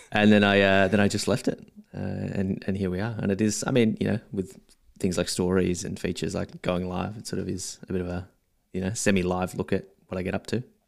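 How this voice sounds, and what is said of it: Australian accent. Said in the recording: “People obviously know you're from Australia by your accent”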